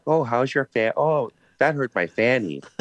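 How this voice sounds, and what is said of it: Put-on Wisconsin accent. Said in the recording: “That sort of sounds like Wisconsin to me a little.”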